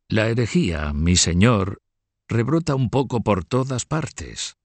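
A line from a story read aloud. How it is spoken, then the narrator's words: Cracked, unsettling voice. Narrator (Spanish): decía el cardenal con su voz cascada e inquietante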